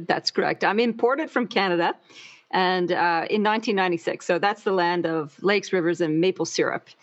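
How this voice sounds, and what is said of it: Speaks with an accent. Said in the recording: “I can hear an accent”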